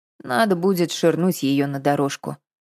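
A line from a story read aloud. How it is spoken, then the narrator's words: Calm. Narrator (Russian): спокойно сказала Катя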